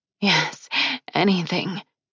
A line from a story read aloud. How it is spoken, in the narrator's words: she breathed out